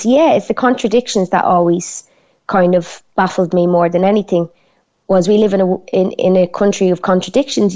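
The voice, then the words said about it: Broad Dublin Irish accent. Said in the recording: “You've got a broad Dublin accent.”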